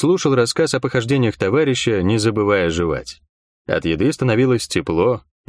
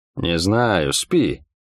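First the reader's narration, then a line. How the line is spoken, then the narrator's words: Through clenched teeth. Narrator (Russian): процедил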